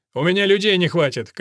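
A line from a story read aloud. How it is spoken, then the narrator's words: Shout after someone. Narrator (Russian): крикнул ему вдогонку Элфрик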